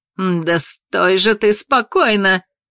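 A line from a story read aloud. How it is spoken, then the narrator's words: Witch growling, weary. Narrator (Russian): прорычала колдунья, утомившись от этой борьбы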